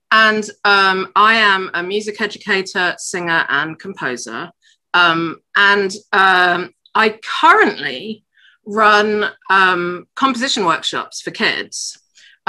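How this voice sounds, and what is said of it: English accent. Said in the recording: “English accent, but live in America”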